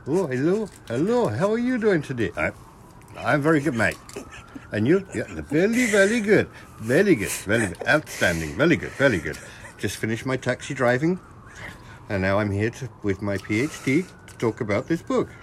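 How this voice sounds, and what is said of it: Put-on Indian accent. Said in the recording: “he sounded British. You got confused between the accents ... No. Very Indian.”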